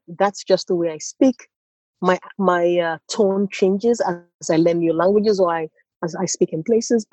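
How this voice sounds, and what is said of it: Nigerian accent with slight American lilt. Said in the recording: “you can tell that, oh, maybe I lived in the US a little bit, or you can start picking up some of the lilt of a Swede ... my accent is very Nigerian”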